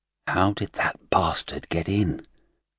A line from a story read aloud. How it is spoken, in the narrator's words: the researcher at the terminal said softly